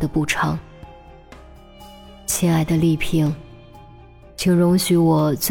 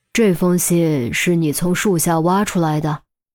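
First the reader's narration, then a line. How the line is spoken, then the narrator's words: Tearful. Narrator (Chinese): 何丽萍抹抹眼泪，点头道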